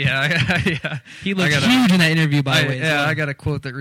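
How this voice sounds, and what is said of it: Usual voice. Nothing is said of it.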